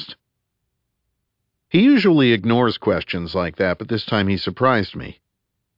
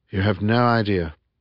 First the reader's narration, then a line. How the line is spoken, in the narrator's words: breathed Wilson